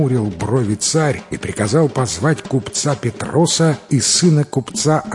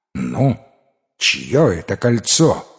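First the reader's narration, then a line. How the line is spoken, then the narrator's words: Stern question. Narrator (Russian): строго спросил повелитель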